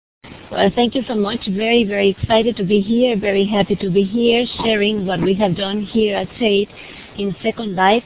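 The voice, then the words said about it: Spanish accent. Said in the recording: “my Spanish accent is not that bothering ... having a Spanish accent”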